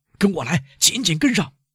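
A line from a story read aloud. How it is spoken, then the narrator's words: Shout. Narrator (Chinese): 宪兵队长喊道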